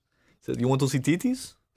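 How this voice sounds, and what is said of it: Poor attempted Nigerian accent, sounds Russian. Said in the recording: “I'm really bad at doing accents. I can't do a good Nigerian accent... That sounded Russian.”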